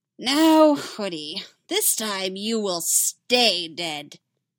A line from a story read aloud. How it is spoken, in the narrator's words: the Joker cackles